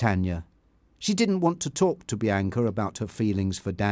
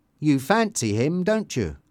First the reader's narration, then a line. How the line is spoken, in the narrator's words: asked Bianca